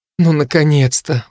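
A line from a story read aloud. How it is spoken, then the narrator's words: Breathed out, young woman. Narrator (Russian): выдохнула девушка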